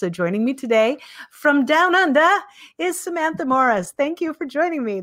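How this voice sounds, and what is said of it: Bad put-on Australian accent. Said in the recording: “There's my very bad Australian accent ... that's an interesting spin on the accent”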